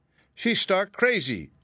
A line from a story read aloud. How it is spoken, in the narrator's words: cried Aunt Em